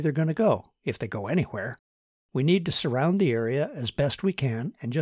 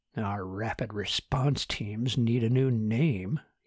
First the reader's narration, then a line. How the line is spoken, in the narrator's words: he grumbled in his mind